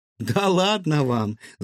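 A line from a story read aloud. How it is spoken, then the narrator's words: Laughing. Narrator (Russian): засмеялась Илона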